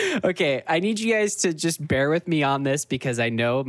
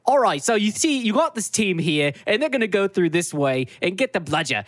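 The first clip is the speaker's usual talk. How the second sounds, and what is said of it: Poor put-on British sportscaster voice. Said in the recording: “my British accent is fucking horrible ... a British John Madden describing the plays”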